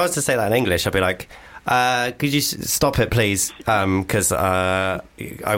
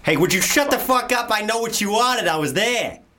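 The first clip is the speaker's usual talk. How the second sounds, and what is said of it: Put-on Boston American accent. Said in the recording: “American accent ... Do your Boston. Your Boston was good.”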